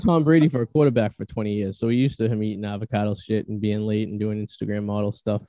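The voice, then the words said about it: Boston accent. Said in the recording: “Are you guys from Boston? ... I am in love with your accents. It is the sexiest accent I have ever heard.”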